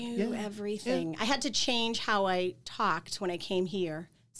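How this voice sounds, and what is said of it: Boston accent. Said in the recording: “get my accent under wraps ... I'm from Boston.”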